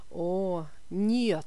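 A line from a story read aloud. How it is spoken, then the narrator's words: Groaning. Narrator (Russian): застонал инженер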